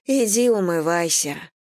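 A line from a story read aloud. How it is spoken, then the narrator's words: Tired. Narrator (Russian): сказала Анна устало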